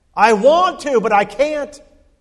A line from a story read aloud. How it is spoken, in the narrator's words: the man yelled out